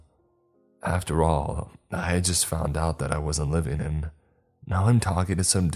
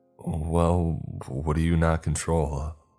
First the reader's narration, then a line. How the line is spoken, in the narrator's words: I stuttered